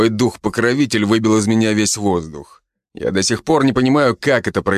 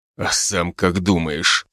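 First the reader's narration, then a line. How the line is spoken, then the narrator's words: Hissing order member. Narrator (Russian): прошипел орденец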